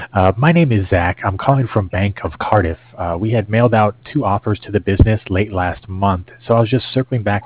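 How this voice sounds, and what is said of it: Hoarse, strained, fading voice. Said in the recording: “I'm losing my voice here”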